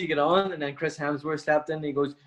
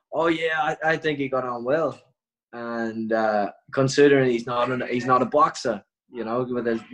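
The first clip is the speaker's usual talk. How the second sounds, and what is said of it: Put-on Australian accent. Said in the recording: “with my best Australian accent”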